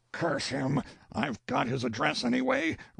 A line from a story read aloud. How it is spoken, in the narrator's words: roared Burley inwardly